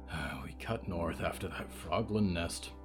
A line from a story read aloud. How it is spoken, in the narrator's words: he muttered